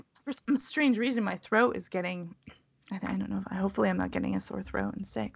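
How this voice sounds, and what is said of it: Slightly raspy voice. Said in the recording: “My voice is, is a little more. My voice is a little more raspy today”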